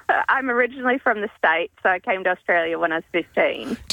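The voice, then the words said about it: Slight American accent. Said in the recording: “I detect a little accent”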